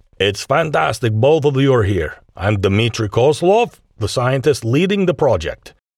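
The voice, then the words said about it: Heavy Russian accent. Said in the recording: “greeted them in a heavy Russian accent”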